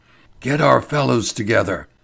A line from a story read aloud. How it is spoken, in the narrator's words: whispered Ferguson